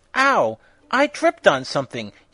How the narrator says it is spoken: he exclaimed indignantly

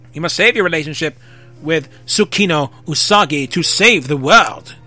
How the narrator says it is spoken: the voice said urgently

